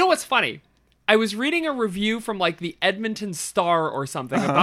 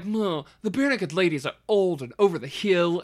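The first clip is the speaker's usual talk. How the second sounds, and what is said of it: Put-on Edmonton accent. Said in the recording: “I'm speaking with this accent. This is what people in Edmonton sound like”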